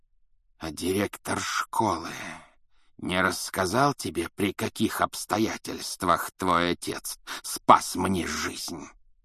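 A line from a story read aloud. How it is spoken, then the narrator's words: Hissed. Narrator (Russian): прошипел он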